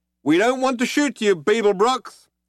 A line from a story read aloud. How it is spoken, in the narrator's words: shouted the figure